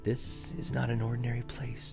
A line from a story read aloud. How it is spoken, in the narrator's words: whispered